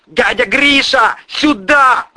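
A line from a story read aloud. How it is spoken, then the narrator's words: Yelling. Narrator (Russian): орал мой душитель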